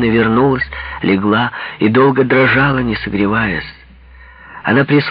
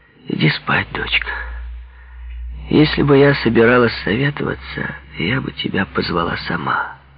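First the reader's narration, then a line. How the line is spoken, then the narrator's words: Mother speaking quietly. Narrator (Russian): мать сказала тихо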